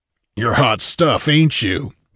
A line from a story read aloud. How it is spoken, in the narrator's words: the outlaw grumbled